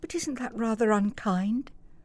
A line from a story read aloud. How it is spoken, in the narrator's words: said Helen softly